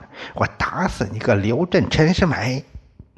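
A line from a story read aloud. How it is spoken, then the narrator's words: Shrill screaming woman. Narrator (Chinese): 赵世仁的女朋友这时说话了，尖声叫着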